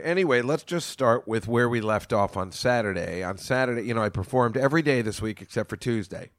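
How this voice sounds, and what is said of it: Voice a little strained from yelling. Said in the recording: “I've been yelling at people on the phone all day, so my voice is a little bit weird.”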